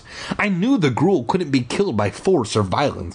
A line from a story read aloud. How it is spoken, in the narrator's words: I exclaimed